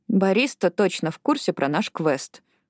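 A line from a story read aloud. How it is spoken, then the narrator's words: Grumbled. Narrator (Russian): буркнула она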